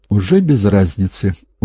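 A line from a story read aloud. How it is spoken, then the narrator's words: Dejected voice. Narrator (Russian): упавшим голосом сказал Лаврентьев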